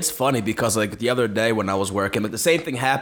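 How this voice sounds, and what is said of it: Usual voice. Nothing is said of it.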